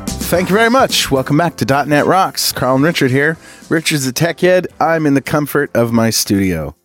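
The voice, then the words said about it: Congested voice from a cold. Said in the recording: “I have a cold, if you haven't noticed.”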